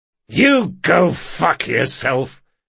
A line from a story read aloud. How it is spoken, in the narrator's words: snarled Locke